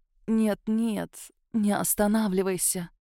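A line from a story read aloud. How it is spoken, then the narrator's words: Languid whisper. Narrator (Russian): томно прошептал Лейман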